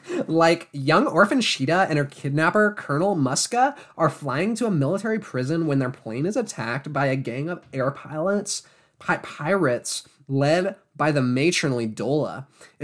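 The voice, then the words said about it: Mean Girls style voice. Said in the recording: “How do I do this voice? ... I'll just do a Mean Girls voice.”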